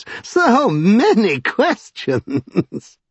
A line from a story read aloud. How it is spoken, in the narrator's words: laughed